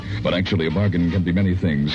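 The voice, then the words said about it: Exaggerated radio announcer voice. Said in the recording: “here's my announcer voice again”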